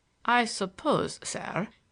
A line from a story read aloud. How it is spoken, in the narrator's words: he began brokenly